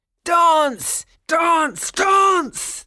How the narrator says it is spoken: they shouted

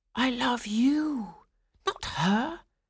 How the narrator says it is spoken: Franz whispered to Swanhilda

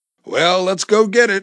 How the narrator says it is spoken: Mario chuckled with delight usually reserved for those much younger than his 34 years

